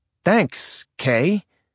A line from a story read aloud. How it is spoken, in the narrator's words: Nick said bitterly